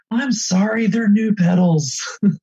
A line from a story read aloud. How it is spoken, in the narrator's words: utter out, just literally like screaming it to the peloton